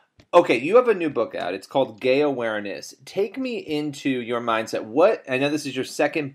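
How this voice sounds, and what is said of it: Usual voice. Nothing is said of it.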